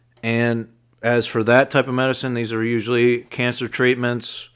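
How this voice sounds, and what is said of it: Slight accent, words pronounced differently. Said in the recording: “I have a little bit of an accent. ... So I pronounce words a little different”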